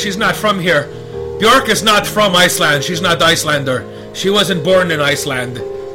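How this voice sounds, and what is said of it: Good put-on Icelandic accent. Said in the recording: “That's a good Icelandic accent.”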